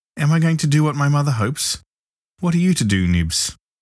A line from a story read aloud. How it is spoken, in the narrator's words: Tootles cried out hysterically